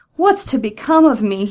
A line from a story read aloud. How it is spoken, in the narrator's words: cried